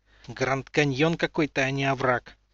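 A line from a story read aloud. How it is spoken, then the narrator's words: Annoyed boy grumbling. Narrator (Russian): бурчал раздосадованный мальчишка себе под нос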